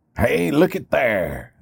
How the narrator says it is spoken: Uncle Carl exclaimed

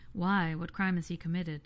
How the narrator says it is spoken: asked Pilate

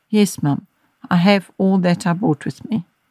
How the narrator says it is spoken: In a downcast voice, Anne replied

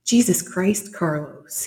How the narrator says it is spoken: he said irritably

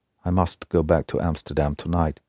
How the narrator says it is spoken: he said

